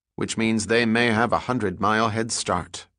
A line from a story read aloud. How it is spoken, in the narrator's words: Pitt computed quickly